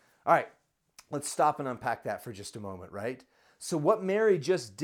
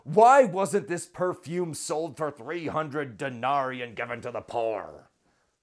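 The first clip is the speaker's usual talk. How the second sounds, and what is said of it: Deliberately bad Judas impression. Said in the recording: “my Judas impression. It's a terrible one.”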